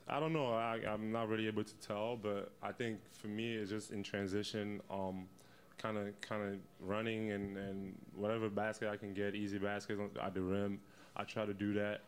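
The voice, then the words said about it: Slight Cameroonian French-tinged accent. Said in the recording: “it's just got that little hint of the accent ... he has some French roots ... he's from Cameroon”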